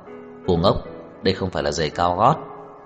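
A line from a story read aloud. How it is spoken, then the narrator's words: Sudden loud laughter. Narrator (Vietnamese): Trang Hạo Nhiên đột nhiên cười lớn, nói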